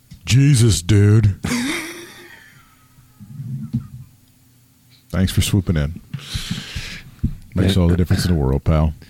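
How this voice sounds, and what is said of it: Imitates another person's voice. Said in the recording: “My imitation of Trent Beretta.”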